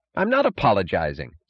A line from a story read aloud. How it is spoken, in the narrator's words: snapped Mooch